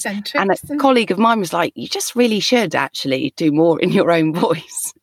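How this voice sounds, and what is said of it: Essex-tinged London accent. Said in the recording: “the voice I'm talking to you in now is my natural sort of speaking voice ... I definitely have more of, my sister would refer to it as a Essex twang ... my natural kind of London sound”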